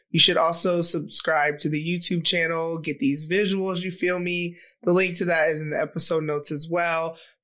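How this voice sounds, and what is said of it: Sick-sounding voice. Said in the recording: “I know you can hear it in my voice. I thought it was allergies, but sadly, it's not... I am sick.”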